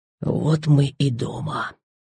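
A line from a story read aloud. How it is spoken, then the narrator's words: Whispered. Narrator (Russian): шепнул он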